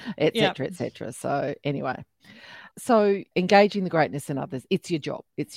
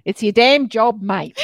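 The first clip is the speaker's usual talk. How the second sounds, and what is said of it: Exaggerated Australian accent. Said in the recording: “There's my really Australian accent.”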